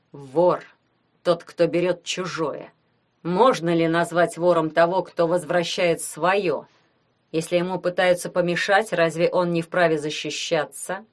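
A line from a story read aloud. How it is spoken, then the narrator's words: Through gritted teeth. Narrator (Russian): Сквозь зубы произнес он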